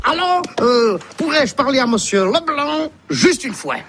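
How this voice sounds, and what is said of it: Belgian French accent. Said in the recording (French): “on a l'accent belge hein, pour la Belgique”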